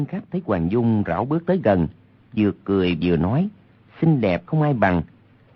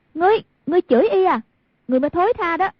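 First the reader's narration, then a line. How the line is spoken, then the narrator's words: Furious shout. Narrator (Vietnamese): Hoàng Dung cả giận, quát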